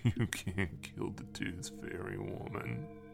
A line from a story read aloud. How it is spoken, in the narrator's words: in a guttural whisper he said